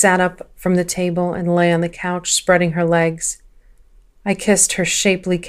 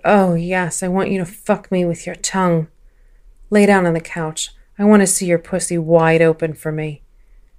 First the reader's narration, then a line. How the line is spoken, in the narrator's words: She moaned